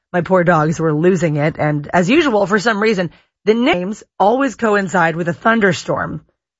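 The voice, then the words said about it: Slightly hoarse voice. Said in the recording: “You can hear my voice is a little bit hoarse.”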